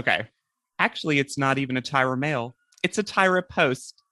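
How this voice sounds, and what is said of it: Hyper-sincere impression of Annalie. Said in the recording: “do an impression of the hyper sincere Annalie doing it for the first time ... I can't do the accent because I can't do anything but my own accent ... So sincere.”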